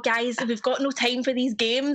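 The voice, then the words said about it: Put-on strong Irish accent. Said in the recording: “my accent wasn't strong enough ... I went pure Irish at the end”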